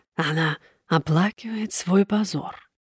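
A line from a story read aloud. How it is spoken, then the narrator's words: Triumphant whisper, silent laugh. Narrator (Russian): Госпожа Луазо беззвучно, но торжествующе засмеялась и прошептала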